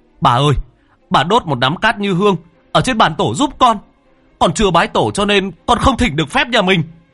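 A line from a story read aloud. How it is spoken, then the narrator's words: Nearly shouting. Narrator (Vietnamese): Cha nói như hét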